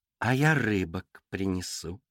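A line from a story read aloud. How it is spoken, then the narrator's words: Sweet singsong. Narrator (Russian): ласково пропела лисица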